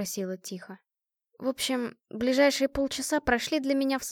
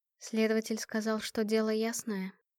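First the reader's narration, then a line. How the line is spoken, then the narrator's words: Quiet. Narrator (Russian): произнесла она негромко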